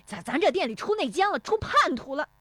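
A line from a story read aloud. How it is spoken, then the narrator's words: Flustered, furious shouting. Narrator (Chinese): 石有福气急败坏的嚷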